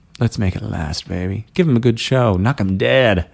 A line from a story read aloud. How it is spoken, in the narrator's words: whispered